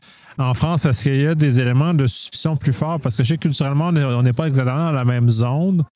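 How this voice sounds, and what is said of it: Non-French francophone accent. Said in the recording (French): “vous avez compris avec mon accent, je ne suis pas français”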